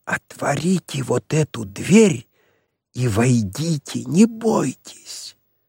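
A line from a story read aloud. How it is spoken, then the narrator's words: Whispered. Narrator (Russian): сказал шепотом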